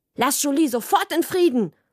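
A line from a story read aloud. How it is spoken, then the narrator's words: Sharp. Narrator (German): habe ich gesagt, und es hat so scharf geklungen wie Mamas Schweizer Messer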